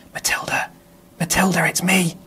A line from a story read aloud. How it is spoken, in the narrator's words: Dad said softly at the keyhole